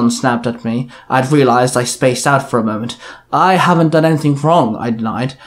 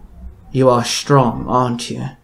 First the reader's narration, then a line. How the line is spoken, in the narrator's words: She muttered